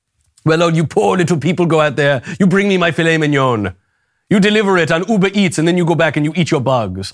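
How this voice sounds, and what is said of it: Put-on vague cosmopolitan accent. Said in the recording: “I don't know what accent that is. I'm not sure exactly, but it's just a vague kind of cosmopolitan accent.”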